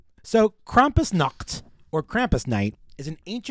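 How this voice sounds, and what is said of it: Usual voice. Nothing is said of it.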